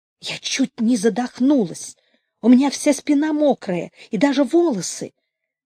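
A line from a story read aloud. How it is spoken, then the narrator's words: Excited whisper. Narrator (Russian): говорила Люся возбужденным шепотом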